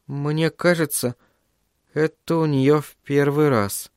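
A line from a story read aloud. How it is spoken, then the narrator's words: Uncertain. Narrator (Russian): неуверенно произнесла Сью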